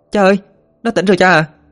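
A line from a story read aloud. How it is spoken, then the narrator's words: Excited shout. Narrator (Vietnamese): Ina thấy Tuấn tỉnh dậy thì hét lên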